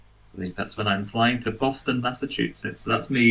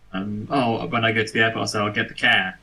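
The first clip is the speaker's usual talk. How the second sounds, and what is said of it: Poor put-on Boston accent. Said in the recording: “Doing a Boston accent as well. ... That's awful.”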